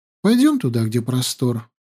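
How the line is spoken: Gentle calling. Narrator (Russian): ласково позвала Аюна

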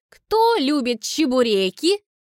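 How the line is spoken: Loud question. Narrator (Russian): громко спрашиваю

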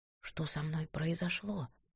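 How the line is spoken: Woman's frightened whisper. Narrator (Russian): Голос женщины звучал, как напуганный шепот

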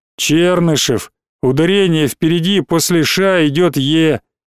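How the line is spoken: Rote deep bass. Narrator (Russian): Чернокожий заученно пробасил

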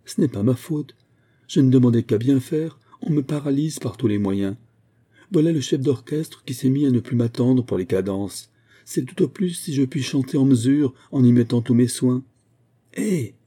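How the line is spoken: Furious exclaiming. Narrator (French): s'écria Morini, d'autant plus furieux qu'il sentait qu'Ariane avait raison

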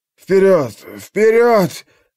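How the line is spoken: Hoarse, nauseous wheezing. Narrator (Russian): хрипел он, чувствуя, как к горлу подкатывает тошнота

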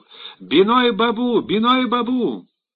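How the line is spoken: Excited shouting. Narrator (Russian): Шотиш захлопал в ладоши и закричал

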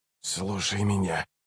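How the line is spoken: Hissing. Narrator (Russian): прошипел Раллик

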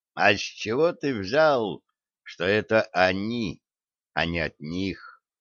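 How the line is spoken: Quiet question. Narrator (Russian): негромко спросил Яков

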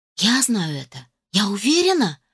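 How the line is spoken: Fervent exclamation. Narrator (Russian): с жаром воскликнула я

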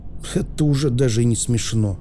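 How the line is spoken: Grumbling mutter. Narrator (Russian): буркнул Аспирин

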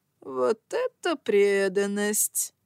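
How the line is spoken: Mocking yet wary. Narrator (Russian): проговорил он одновременно насмешливо и настороженно

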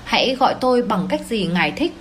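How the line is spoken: Plain. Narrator (Vietnamese): cậu ấy nói

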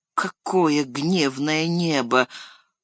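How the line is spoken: Muttered. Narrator (Russian): пробормотал хоббит

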